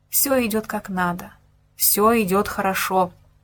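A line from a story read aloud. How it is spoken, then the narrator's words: Calm self-reassurance. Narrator (Russian): еще раз напомнил себе, стараясь и дальше держаться спокойно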